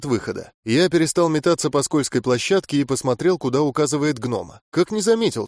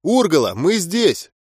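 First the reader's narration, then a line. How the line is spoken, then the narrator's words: Shout. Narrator (Russian): крикнул я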